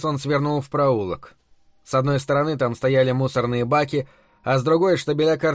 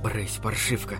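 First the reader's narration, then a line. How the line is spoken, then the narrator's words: Whisper. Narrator (Russian): прошептал Бобби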